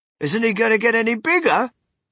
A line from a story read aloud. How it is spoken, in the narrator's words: shouted Mr